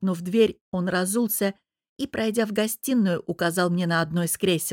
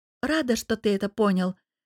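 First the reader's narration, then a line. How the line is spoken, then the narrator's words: Calm reply. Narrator (Russian): спокойно отозвалась я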